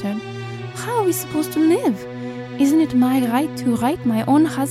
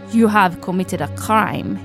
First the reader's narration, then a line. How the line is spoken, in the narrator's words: he said coldly